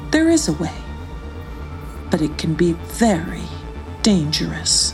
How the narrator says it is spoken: said Rufus in an ominous tone

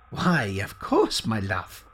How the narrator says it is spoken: chuckled the man

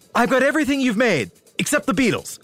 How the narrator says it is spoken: David blurted out

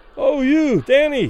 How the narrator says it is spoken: Those further away, unable to suppress their admiration, cried loudly

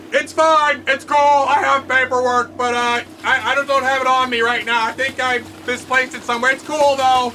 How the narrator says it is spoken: The man inside Captain Bubble shouts back

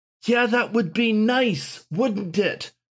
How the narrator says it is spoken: shouted Gawain

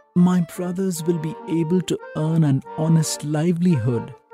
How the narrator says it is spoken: sighed

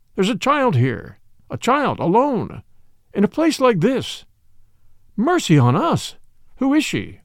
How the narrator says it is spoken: he cried out

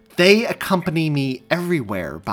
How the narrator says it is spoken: Bobby snapped

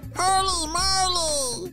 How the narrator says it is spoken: shouted Asher

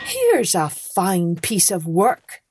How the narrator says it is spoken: he cried

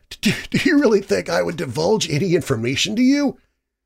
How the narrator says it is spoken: Lucifer giggled

